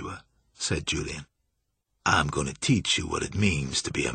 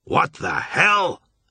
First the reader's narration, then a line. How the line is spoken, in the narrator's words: Marsh roared